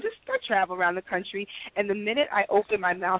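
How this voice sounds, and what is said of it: New York accent. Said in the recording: “You're from New York, aren't you? ... I like the accent. ... I'm definitely a New Yorker.”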